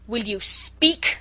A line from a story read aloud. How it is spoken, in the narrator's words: thundered Chauvelin menacingly